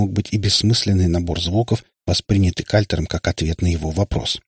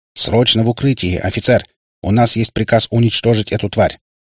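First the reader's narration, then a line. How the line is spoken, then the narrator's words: Barked through loudspeaker. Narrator (Russian): рявкнул с небес усиленный репродуктором голос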